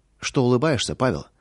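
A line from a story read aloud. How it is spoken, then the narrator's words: Plain. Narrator (Russian): спросила жена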